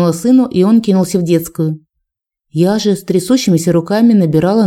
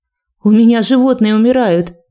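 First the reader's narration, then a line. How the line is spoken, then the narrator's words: Shouted into phone. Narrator (Russian): крикнула в трубку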